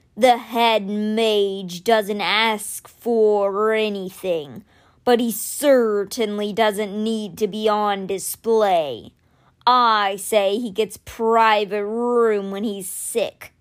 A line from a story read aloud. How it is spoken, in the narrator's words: growled